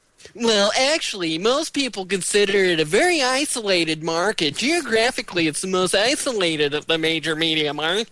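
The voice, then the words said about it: Mock Reddit commenter voice. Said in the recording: “my Reddit impersonation... That's your Reddit voice”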